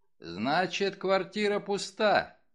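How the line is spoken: Loud voice. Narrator (Russian): сделал вывод Мегре почему-то громким голосом

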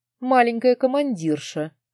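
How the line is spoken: Loud laughter. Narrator (Russian): расхохотался Бек

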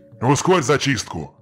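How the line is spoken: Grumbling ruler. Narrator (Russian): проворчал хан

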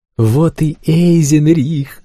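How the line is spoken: Joyful yell. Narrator (Russian): радостно проорал Флик

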